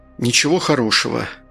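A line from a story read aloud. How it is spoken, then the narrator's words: Sigh. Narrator (Russian): Артур вздохнул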